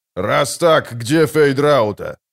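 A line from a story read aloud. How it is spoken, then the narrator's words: Growling. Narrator (Russian): прорычал барон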